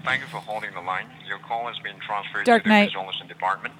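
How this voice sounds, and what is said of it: Foreign accent attempting American accent. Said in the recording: “trying to do a more of an American accent. It's still coming through, but he's trying to do more of an American accent.”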